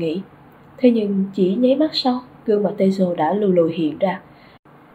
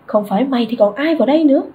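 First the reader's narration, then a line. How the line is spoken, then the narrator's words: Angry roar. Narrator (Vietnamese): tiếng gầm giận dữ của Teizo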